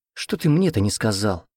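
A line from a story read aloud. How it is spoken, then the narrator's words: Vexed exhale. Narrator (Russian): раздосадованно выдохнул друг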